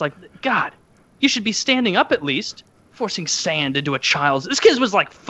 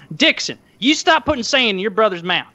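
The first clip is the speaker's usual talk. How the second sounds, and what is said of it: Florida Southern accent. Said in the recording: “the Florida Southern accent is a little different”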